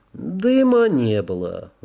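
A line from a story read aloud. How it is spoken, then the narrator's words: Glum confirmation. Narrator (Russian): уныло подтвердил Кевилгар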